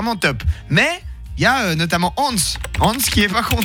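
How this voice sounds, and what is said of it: Usual voice. Nothing is said of it.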